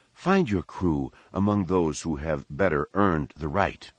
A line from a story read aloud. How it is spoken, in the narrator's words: Yeoman Carr said